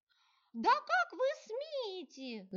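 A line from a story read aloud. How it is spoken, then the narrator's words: Shrill young woman's shriek. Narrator (Russian): завизжала расфуфыренная и увешанная драгоценностями девица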